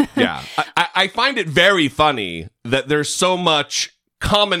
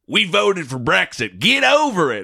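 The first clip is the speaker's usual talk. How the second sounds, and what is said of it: Mock MAGA American accent. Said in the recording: “I'm using the MAGA American accent.”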